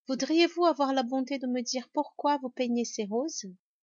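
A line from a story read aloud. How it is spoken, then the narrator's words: Somewhat timid question. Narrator (French): demanda Alice un peu timidement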